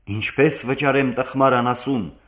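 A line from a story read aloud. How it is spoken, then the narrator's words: Furious exclamation. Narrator (Armenian): կատաղած բացականչեց դանգլարը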